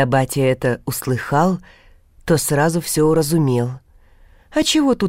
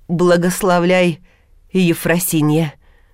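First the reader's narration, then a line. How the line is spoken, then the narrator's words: Trembling voice, elder man. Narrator (Russian): Дрогнувшим голосом вымолвил старший чеботок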